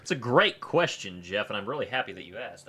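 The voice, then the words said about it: Polished politician-style speaking voice. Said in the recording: “now I sound like a political candidate”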